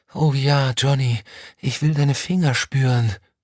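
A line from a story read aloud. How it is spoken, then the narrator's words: Moan. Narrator (German): stöhnte sie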